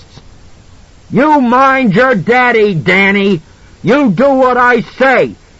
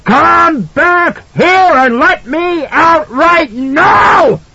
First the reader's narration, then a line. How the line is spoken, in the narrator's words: Jack screamed